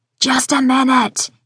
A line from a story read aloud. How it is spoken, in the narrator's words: yells